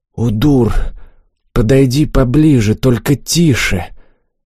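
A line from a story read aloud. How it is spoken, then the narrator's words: Tense whisper. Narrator (Russian): Олег, напрягшись от внезапной догадки, шепнул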